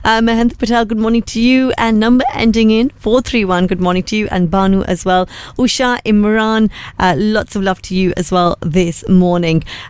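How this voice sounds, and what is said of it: Changed, sore-throated voice. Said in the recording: “Everyone's saying my voice has changed. ... It's just a sore throat.”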